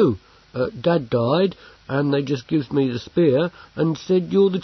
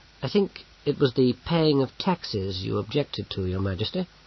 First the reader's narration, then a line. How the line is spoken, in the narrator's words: said Bane calmly